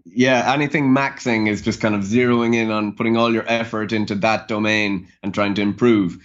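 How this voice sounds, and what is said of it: Irish accent. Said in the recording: “a nice, charming Irish accent”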